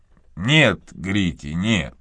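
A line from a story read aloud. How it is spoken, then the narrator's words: Gentle. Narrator (Russian): мягко промолвил мистер Талливер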